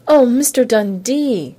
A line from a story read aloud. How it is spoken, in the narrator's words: Carolyn Drake squealed